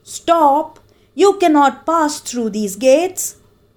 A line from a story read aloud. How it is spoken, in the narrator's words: The boy shouted at the top of his lungs